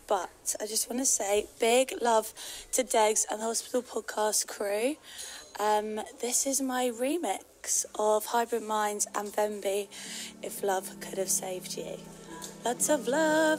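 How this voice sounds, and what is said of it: Lost, strained voice. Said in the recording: “Sorry, I've lost my voice as I've been in Ibiza.”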